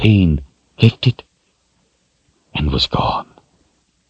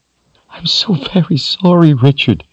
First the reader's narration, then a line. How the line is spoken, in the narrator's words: she sobbed